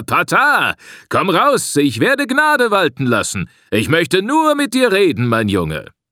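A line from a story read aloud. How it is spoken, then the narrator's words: Sneering laugh, calling. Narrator (German): Semu lachte hämisch und rief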